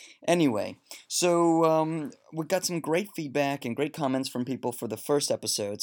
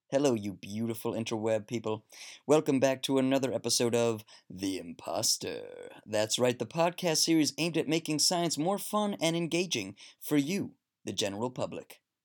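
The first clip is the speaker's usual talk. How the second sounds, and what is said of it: Mock public radio announcer voice. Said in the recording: “That's my NPR voice.”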